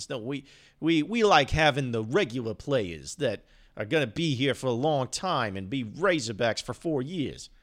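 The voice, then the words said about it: Italian Jersey accent. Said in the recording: “an Italian jersey accent”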